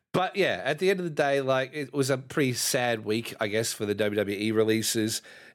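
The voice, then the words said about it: Nasal, congested voice. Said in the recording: “I'm not sounding very well. I'm very nasally ... I've been sick for about two weeks”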